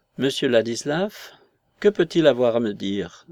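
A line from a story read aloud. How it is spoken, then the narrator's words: Joyful surprised exclamation. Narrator (French): s'écria-t-elle d'un ton de joyeuse surprise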